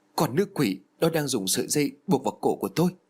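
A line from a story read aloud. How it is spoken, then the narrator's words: Tearful, whimpering. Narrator (Vietnamese): Thúy Hoa mếu máo chỉ lên xà nhà rồi nói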